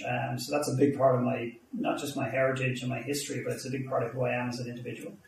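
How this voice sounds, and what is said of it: Irish accent. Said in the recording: “you've gathered from my accent pretty quickly. I'm Irish.”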